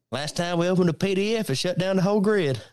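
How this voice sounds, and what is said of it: Exaggerated Southern drawl. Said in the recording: “the guy with the Southern drawl is doing the Southern drawl”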